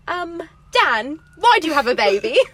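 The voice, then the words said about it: Put-on accent for a character. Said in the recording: “I'm not doing the accent the whole time. I just needed to do it this once.”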